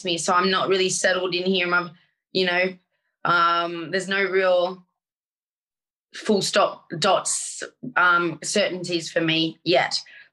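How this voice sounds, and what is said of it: Australian accent. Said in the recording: “it's not an Essex accent that you hold. It's an Australian one.”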